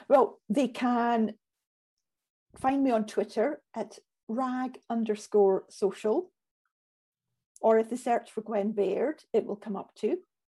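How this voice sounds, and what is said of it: Scottish accent. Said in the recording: “I love your Scottish. Is it Scottish? ... Scottish accent is absolutely beautiful. It's absolutely beautiful.”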